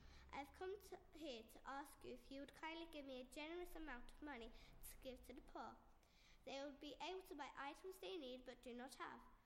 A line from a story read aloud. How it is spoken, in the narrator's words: Veronica nervously replied